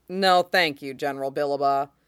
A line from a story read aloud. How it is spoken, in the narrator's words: he says blandly